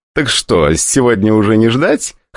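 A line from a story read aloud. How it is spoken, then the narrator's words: Short laugh. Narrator (Russian): хохотнул Антон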